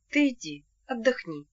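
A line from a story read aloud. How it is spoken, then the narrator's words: Tender. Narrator (Russian): сказал он нежно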